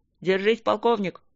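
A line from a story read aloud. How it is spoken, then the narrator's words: Crackling radio voice. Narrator (Russian): проскрипела рация голосом Тедуса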